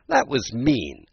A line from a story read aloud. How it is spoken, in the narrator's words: Alice said indignantly